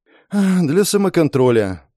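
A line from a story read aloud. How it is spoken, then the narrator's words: Sighing. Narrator (Russian): вздохнула девушка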